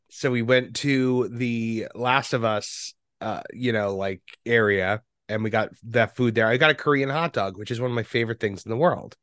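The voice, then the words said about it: Sick, strained voice. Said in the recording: “I've been sick, and you know, it's kind of hard to talk at that Morty register ... you can probably hear it in my voice right now. I'm just like, ugh.”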